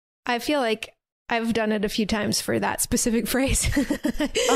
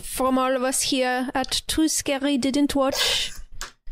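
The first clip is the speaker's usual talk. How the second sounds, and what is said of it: Put-on French accent. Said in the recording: “French accent. ... That was good.”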